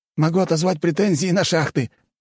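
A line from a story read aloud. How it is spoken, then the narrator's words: Exclaimed. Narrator (Russian): воскликнул Гришанов-младший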